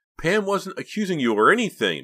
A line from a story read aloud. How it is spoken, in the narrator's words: Mickey cried, coming to Pam's defense